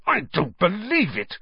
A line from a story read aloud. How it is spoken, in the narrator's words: Wood hissed in outrage